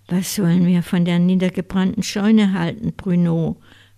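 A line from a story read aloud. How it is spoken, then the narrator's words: Plain. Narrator (German): fragte Brunier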